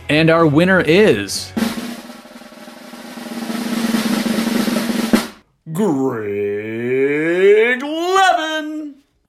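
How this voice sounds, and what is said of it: Game show announcer voice. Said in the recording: “game show announcer voice”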